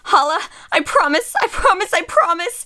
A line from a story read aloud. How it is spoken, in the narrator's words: say frantically, like the words are a charm, a healing incantation